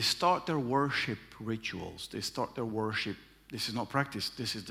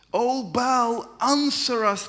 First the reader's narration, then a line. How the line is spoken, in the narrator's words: shouted